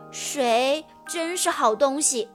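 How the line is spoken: Sighing in admiration. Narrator (Chinese): 达达也感叹道

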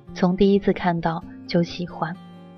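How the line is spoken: Soft voice. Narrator (Chinese): 他轻声说

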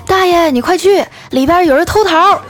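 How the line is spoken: Frightened shouting while running. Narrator (Chinese): 这孙子害怕了，一边跑还一边喊

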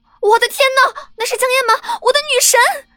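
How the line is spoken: Shrieking. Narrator (Chinese): 旁边传来了一声尖叫

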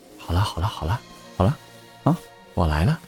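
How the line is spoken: Soft comforting. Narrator (Chinese): 林月然 低头轻声的安慰

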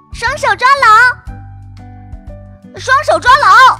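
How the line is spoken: Shouting together. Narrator (Chinese): 哥哥和糖糖一起喊

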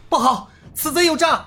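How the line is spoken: Sudden loud shout. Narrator (Chinese): 尹建平忽然大喊一声

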